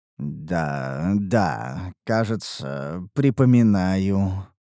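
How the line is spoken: Muttered. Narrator (Russian): пробормотал я

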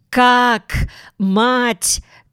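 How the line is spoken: Astonished shout. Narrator (Russian): крикнула Натаха с изумлением

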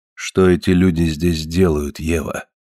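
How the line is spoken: Calm, barely restrained. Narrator (Russian): Консардайн говорил спокойно и ровно, но видно было, что он сдерживается с огромным трудом

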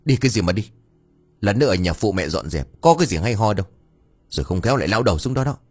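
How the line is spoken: Scolding shout. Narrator (Vietnamese): Bà Ngân quát

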